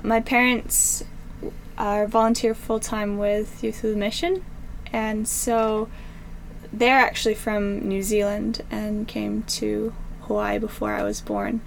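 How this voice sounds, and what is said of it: American accent with slight Kiwi twang. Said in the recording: “the American accent with a little bit of a twang sometimes of Kiwi”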